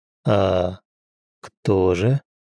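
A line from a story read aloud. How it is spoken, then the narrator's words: Very quiet question. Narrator (Russian): Очень тихо спросил Михеев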